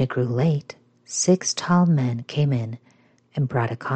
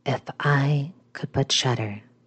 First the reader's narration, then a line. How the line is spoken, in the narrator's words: said quietly again